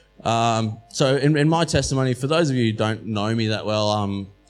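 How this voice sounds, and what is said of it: Australian-sounding accent. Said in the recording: “I look and sound Australian. I'm not. I was born in Scotland.”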